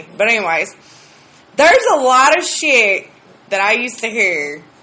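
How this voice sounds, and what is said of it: Rural accent. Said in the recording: “I grew up way out in BFE. If you can't tell by the accent, everybody makes fun of me.”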